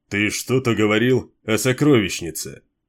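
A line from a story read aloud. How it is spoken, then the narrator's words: Snorting. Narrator (Russian): Капитан-вальданец хмыкнул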